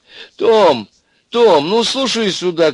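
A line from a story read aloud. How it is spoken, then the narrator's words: Woman shouting into phone. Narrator (Russian): кричала в трубку библиотекарша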